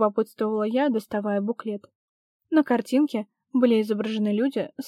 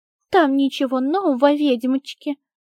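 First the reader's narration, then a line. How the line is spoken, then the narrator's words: Mocking nasty voice. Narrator (Russian): передразнила она противным голосом деканшу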